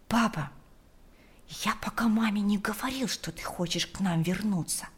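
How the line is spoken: Whispering boy. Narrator (Russian): зашептал мальчик

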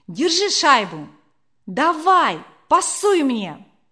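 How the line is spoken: Loud shout while running. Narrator (Russian): На бегу Леня громко крикнув

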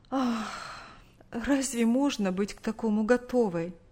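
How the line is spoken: Sighing reply. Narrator (Russian): Вздохнув, ответила мать

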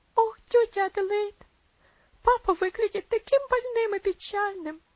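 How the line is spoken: Sobbing girl. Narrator (Russian): всхлипнула девочка

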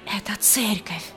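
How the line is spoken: Whisper. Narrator (Russian): прошептала Дора

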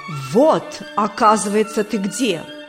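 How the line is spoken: Loud shout. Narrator (Russian): громко крикнул незнакомец

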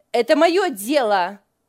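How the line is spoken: Angry snap. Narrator (Russian): сердито бросила Лиля

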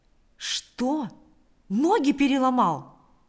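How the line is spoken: Exclaiming. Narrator (Russian): воскликнул он

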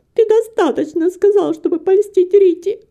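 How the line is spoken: Sobbing. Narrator (Russian): всхлипывала Антонетта

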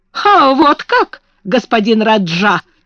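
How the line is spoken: Fierce shout. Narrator (Russian): свирепо крикнула Мэри

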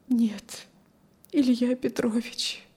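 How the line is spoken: Barely audible, grief-stricken woman. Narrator (Russian): чуть слышно сказала убитая горем женщина

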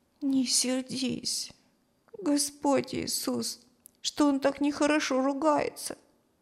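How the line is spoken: Child's quiet prayer. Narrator (Russian): Тихо молился мальчик

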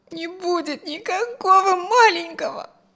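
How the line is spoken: Tearful young woman. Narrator (Russian): сквозь слезы промолвила девушка

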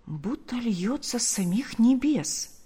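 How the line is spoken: Very quiet, secretive. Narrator (Russian): произносит Марфа так тихо, чтобы не услышал муж

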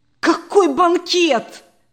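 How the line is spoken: Exclaiming. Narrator (Russian): воскликнул Сергей Петрович

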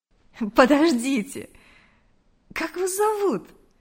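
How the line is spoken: Almost laughing. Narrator (Russian): Чуть не рассмеялась Мария

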